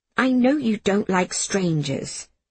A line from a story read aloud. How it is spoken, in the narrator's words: she said, more quietly